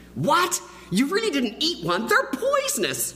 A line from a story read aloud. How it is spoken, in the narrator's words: Lindsay exclaimed